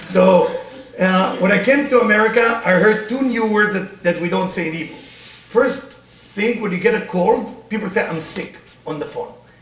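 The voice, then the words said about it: Israeli accent, sometimes taken as French. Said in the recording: “I'm Israeli, as you can tell my accent, many people think I'm French, but I'm not.”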